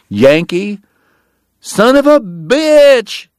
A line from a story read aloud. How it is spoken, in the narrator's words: Eddie cried with a happy grin